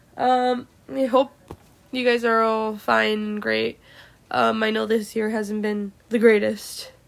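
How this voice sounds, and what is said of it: Sick, weird-sounding voice. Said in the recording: “I am also sick. I'm sorry, guys, if my voice sounds kind of weird.”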